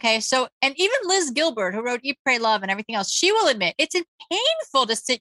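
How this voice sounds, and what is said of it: Usual voice. Nothing is said of it.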